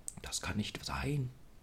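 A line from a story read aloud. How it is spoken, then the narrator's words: Murmur. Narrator (German): murmelte er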